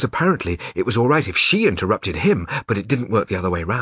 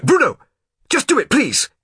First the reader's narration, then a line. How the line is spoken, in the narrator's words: snapped Mother